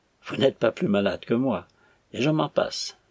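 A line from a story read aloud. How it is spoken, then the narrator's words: Calm reply. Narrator (French): répondit Kayerts d'un ton calme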